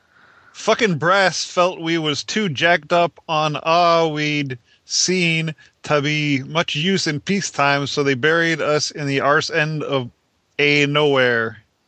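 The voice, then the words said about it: Put-on accent reading aloud. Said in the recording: “I love your accent.”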